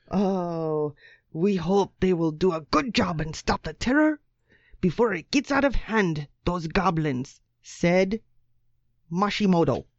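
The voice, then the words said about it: Put-on East African accent. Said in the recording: “That's the best East African accent you've got, is it?”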